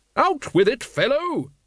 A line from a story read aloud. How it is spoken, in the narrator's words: Lady Ramkin boomed